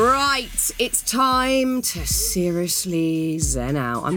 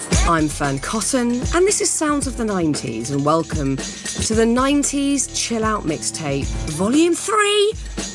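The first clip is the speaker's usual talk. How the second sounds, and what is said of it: Calm soothing yoga-instructor voice. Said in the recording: “I'm going to do my zen voice, everyone, like I'm hosting a yoga class.”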